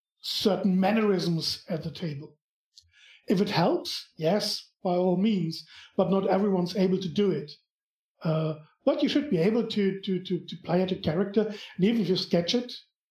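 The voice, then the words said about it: German accent. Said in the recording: “You've got a great German accent right now. ... You have a fantastic German accent right now.”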